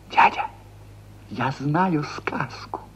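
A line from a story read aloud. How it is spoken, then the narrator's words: Whisper. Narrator (Russian): шепот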